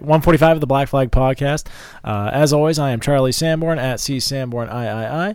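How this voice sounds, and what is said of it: Hoarse, fading voice. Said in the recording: “I'm losing my voice a little bit. I don't know if you can tell.”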